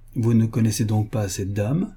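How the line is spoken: Plain. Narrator (French): me dit-il enfin

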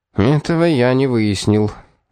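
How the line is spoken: Tired. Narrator (Russian): устало заявил инспектор

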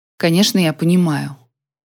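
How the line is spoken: Cold. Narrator (Russian): холодно произнесла я

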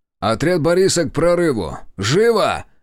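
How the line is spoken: Barked over a crowd. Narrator (Russian): Рявкнул я, перекрывая гомон толпы

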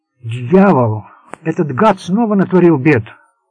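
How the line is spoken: Exclamation while bursting in. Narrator (Russian): воскликнул Пласки, влетая в спальню Серджио

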